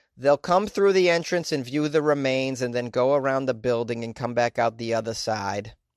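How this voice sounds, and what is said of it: Put-on Boston accent. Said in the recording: “I gave this Tennessee individual a Boston accent.”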